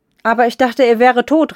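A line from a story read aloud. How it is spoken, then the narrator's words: Woman calling out. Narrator (German): rief eine Frau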